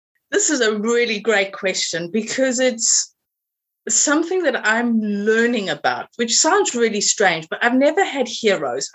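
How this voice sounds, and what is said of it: South African English accent. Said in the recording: “your accent is not from Suffolk ... my accent is originally from South Africa ... I've never been able to lose the accent”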